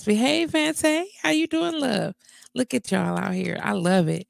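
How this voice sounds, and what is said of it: Slightly raspy, hoarse voice. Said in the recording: “I am a little raspy.”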